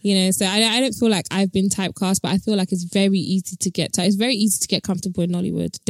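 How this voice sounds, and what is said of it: Natural British accent. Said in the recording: “my natural accent is British ... I was born and raised in the UK ... This is how I actually speak”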